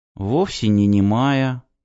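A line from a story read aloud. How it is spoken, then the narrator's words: Girl whispering. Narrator (Russian): прошептала девочка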